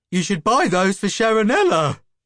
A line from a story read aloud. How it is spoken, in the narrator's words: giggled Bunky